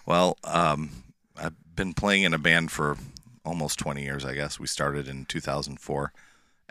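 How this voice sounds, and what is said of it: Slightly hoarse voice. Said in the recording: “you sound a little hoarse”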